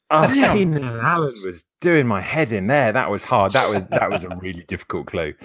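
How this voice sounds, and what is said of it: A great-sounding accent. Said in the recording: “you have a great accent”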